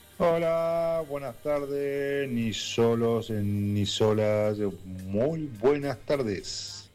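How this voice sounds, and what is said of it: Deep radio announcer voice. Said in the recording (Spanish): “Opa, qué voz. ... qué voz, por favor. Voz de locutor. ... Esa voz de locutor, por favor.”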